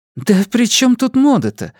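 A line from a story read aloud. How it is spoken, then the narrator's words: Annoyed exclamation. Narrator (Russian): с досадой воскликнула Настя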